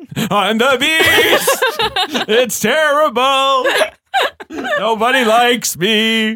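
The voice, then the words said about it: Performs the Beast's voice. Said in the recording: “do your Beast impression again”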